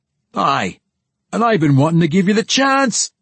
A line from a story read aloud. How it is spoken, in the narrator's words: Brunner shouted back, his voice rising several octaves at the end of his claim, when Puente bit down hard